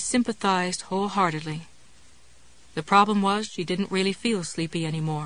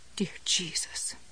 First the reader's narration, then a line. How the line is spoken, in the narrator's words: Jessie muttered